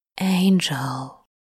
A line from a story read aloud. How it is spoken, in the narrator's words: Crawley murmurs, soft